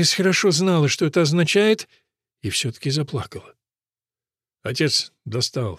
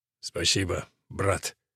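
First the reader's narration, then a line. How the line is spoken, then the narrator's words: Hoarse voice. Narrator (Russian): Голос его был хриплым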